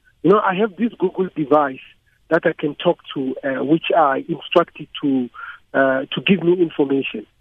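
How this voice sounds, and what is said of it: African-accented English. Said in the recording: “my accent ... an African accent”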